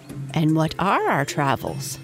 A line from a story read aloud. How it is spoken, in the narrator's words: piped as they stepped along beside their stately parent